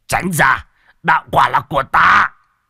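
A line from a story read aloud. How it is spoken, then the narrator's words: Old man roaring. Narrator (Vietnamese): Một lão đầu cũng gầm lên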